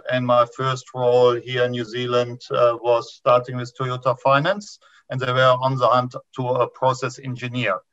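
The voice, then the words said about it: German accent. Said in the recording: “this is not a TV accent. I immigrated from Germany”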